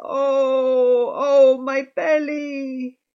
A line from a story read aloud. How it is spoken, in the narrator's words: She groaned